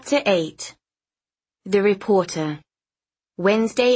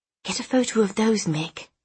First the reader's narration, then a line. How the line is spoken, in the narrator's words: she whispered